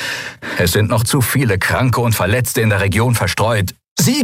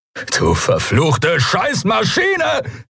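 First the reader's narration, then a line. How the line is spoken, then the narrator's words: Furious roar. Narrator (German): brüllte er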